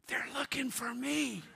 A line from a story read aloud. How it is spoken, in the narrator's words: The little boy whispered